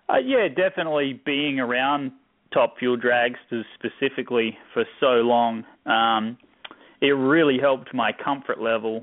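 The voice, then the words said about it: Noticeable foreign accent. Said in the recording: “I detected an accent”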